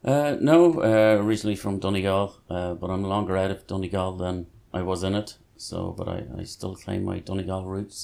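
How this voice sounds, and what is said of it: Irish Donegal accent. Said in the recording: “I can hear the accent now that you're speaking a little bit more. I can hear the twinge coming in.”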